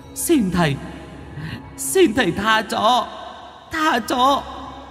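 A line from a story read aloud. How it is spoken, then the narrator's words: Whimpering plea. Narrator (Vietnamese): chắp tay mếu máo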